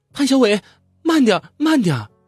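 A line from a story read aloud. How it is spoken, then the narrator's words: Frightened shouting. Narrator (Chinese): 姐姐十分害怕，大声喊叫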